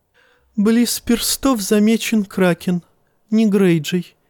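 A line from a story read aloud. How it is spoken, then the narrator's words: Giggle. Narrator (Russian): хихикнул он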